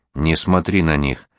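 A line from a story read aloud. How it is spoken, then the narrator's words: Quiet. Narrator (Russian): сказал он ей тихо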